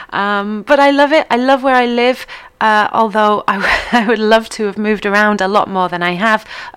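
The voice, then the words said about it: Mixed English accent, occasionally northern. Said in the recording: “my accent is a little different. Every now and then you'll hear me say something very northernly, though. You'll hear me drop an H”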